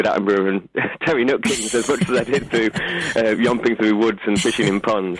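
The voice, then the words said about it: Yorkshire accent. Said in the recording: “I thought that was a Yorkshire accent, actually.”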